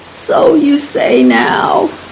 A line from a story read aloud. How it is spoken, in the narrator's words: he laughed